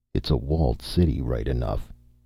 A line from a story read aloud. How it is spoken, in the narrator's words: he muttered presently